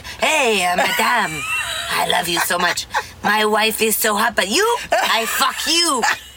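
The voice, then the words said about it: Put-on French accent. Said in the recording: “a little bit French ... Speaks French.”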